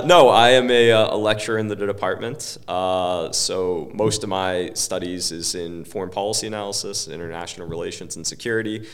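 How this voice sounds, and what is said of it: American accent. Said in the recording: “I am the resident American whose accent you so sorely needed”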